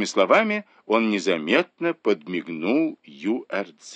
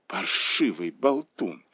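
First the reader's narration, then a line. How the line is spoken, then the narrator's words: Hissed through teeth. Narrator (Russian): сквозь зубы процедила Ю Ар-Дзе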